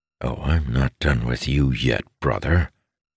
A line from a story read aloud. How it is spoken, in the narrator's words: growled